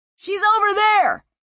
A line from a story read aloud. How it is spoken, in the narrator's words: cried the man from the rookeries